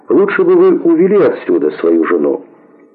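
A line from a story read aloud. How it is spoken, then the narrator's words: Fairly calm tone. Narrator (Russian): сказал вице-президент довольно спокойным тоном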